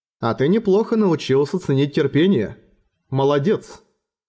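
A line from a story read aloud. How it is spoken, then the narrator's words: Shaken, forced calm. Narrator (Russian): Эрагон вздрогнул и не сразу сумел заставить свой голос звучать, как полагается, но все же постарался говорить как можно более спокойно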